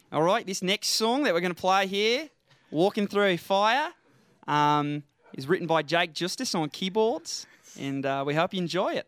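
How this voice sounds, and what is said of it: Put-on Australian accent. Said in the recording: “I've been told you do a killer Aussie accent. ... Do you think you could introduce that song in an Australian accent?”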